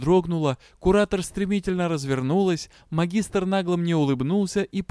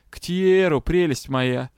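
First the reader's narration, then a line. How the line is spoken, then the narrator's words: Mocking. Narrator (Russian): насмешливо ответили мне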